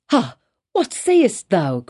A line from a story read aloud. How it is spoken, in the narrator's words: cried he